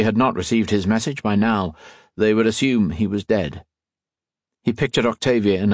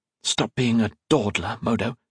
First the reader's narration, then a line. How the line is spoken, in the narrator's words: whispered